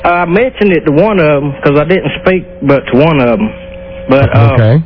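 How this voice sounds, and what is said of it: Strong regional accent. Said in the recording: “Is this a real accent you're using?”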